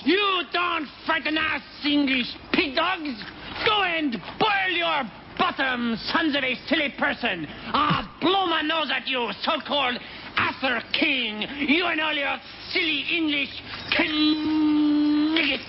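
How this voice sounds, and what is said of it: Outrageous put-on French accent. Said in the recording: “I'm French. Why do you think I have this outrageous accent”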